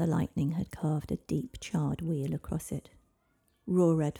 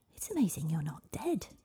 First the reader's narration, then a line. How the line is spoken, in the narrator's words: gasped Avalon